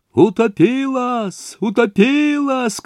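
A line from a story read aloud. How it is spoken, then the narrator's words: Many voices shouting. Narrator (Russian): кричали десятки голосов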